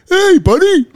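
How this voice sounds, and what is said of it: Imitates another person's voice. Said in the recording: “good impression ... spot on, spot on”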